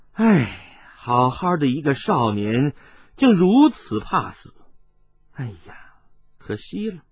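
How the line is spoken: Sighing. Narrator (Chinese): 音频摇着头叹了口气说道

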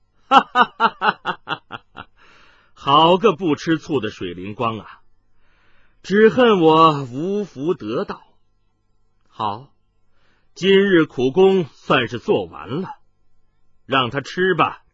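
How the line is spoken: Loud unrestrained laughter. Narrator (Chinese): 麻衣客却纵声大笑起来

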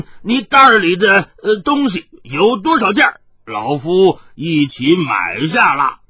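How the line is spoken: Loud. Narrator (Chinese): 冯百万大声的说道

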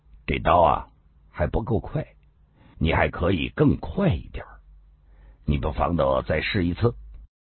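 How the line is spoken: Flat, calm. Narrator (Chinese): 狄青林平平淡淡的说了一句

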